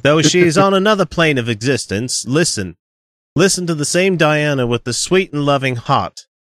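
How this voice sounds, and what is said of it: Weak attempt at Australian accent. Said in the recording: “he's from Australia, and I'm not going to try to do a great Australian accent here.”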